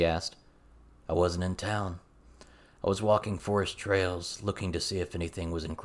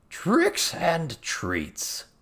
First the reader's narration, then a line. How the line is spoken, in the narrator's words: Toad Squallow exclaimed